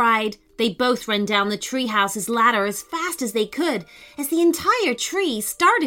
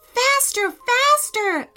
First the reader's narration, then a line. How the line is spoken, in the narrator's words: Amelia cried